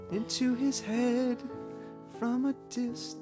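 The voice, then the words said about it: Sings imitating another person's voice. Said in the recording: “That was my Bette Midler impression.”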